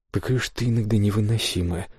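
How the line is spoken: Sighing. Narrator (Russian): вздохнул тот

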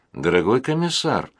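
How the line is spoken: Tired. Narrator (Russian): устало сказала Амалия

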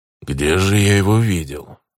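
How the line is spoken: Grumbling. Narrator (Russian): проворчал он

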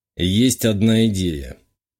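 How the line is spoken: Gloomy. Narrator (Russian): мрачно говорю

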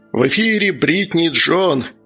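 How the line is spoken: Laughing. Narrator (Russian): хохотнул Джон

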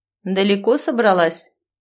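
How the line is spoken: Mocking question. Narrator (Russian): насмешливо спросила она

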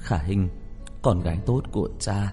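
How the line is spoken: Trembling, tearful, emotional. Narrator (Vietnamese): Đường Chí Long kích động, run rẩy, vừa đau lòng vừa khóc nói

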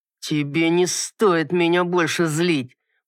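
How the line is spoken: Man, through gritted teeth, nervous. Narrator (Russian): процедил сквозь зубы мужчина, нервно

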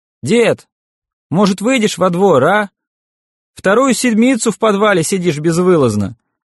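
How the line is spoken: Shouting. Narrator (Russian): закричал Талун

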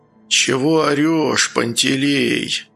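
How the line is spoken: Quiet hoarse voice. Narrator (Russian): тихий и хриплый голос

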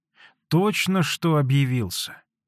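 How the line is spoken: Bitter voice. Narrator (Russian): горьким голосом ответила Аксинья Захаровна

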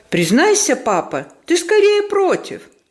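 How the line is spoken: Exclaiming. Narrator (Russian): воскликнул Жанне

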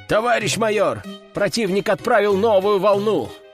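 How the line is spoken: Shouted, messenger. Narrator (Russian): прокричал посыльный

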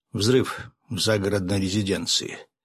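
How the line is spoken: Even, level voice. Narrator (Russian): ровным голосом ... проговорил посланник

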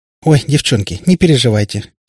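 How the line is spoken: Giggling. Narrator (Russian): хихикнула Катя

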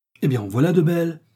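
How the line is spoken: Exclaiming. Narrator (French): s'écria Betty

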